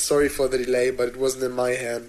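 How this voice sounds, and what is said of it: German accent. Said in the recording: “my cheesy German accent ... It's not cheesy, dude. It is a beautiful German accent ... So cheesy ... It is super cheesy.”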